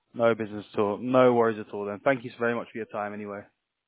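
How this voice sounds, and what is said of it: Speaks with a noticeable accent. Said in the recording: “Love the accent.”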